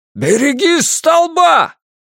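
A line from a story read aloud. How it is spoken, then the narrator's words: Shout. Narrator (Russian): Он закричал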